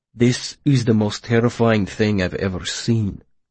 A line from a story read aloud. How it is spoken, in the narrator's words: Willem said quietly